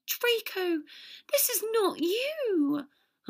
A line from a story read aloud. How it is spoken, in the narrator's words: Hermione pleaded